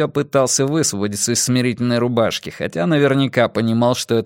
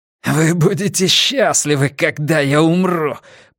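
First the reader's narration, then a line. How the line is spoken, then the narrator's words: Hoarse rasp. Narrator (Russian): прохрипел Уэртон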